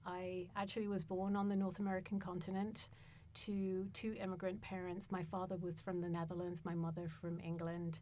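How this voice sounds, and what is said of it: London British English accent. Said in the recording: “As you can tell by my accent, I hail from somewhere else, which is London, the UK.”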